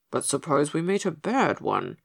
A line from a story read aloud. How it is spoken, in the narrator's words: muttered Pigasus